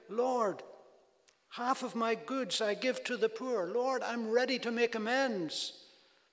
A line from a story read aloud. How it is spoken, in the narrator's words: He cried out